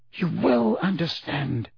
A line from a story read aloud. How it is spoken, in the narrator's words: whispered Dumbledore